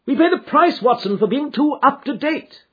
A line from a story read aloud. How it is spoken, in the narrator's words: cried